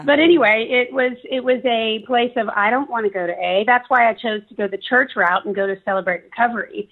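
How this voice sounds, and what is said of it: Raspy voice. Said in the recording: “Here I am with a raspy voice. Yeah. Always have had it. ... I've just always had a raspy voice in my life, but it got worse.”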